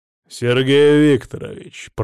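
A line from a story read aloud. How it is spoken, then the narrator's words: Growled. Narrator (Russian): прорычал он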